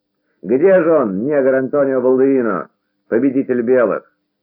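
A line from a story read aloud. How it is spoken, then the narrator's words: Small man shouting. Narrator (Russian): Человечек с сигаретой сплюнул и закричал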